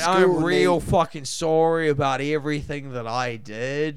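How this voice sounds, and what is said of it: Put-on Canadian accent. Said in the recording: “If I did it like a Canadian accent ... Basic Canadian accent”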